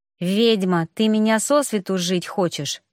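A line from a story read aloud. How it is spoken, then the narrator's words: Through gritted teeth. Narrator (Russian): процедил Эйнар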